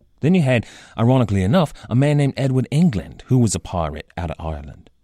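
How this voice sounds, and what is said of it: Rough imitation of London-area accent. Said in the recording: “the accent that I am most certainly butchering right now. This accent is an approximation, a bad imitation, really, of”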